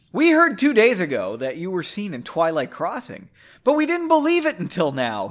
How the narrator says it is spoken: exclaimed

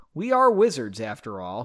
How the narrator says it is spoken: he laughed

